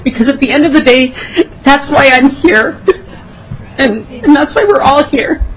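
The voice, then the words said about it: Emotional, choked-up voice. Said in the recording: “I'm sorry for getting emotional.”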